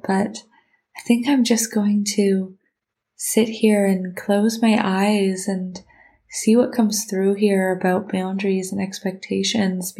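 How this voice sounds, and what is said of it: Slightly congested voice from a cold. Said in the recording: “I think I'm getting a bit of a cold. You can probably hear it in my voice a little bit”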